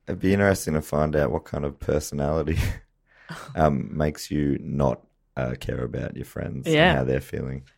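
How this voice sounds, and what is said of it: Rough, worn-out voice. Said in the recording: “my voice is still rubbish from the festival”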